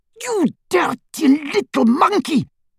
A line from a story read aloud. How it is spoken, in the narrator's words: bawled Bellatrix